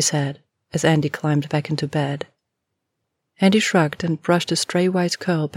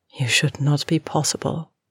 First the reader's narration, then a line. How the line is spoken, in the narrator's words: she said softly